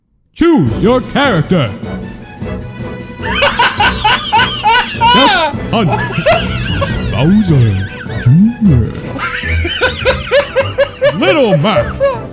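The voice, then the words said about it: Super Smash Bros announcer voice, reverb. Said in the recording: “Could you do a Super Smash Brothers character select? ... Announcer voice with the reverb on.”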